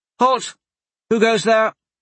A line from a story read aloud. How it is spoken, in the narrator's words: a woman's voice called out